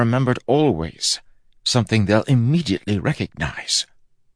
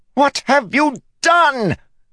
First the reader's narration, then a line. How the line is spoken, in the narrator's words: Fuzz screamed